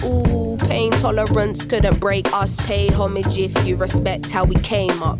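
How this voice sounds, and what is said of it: British Cockney accent. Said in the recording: “She's got a weird accent. ... she's British. ... British, yeah. ... Definitely like Cockney, but you can understand it.”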